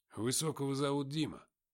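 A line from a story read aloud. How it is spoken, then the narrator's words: Plain. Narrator (Russian): сказал Тихон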